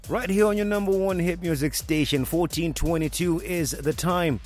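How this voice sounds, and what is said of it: Excited, energetic radio delivery. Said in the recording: “hear the excitement in my voice”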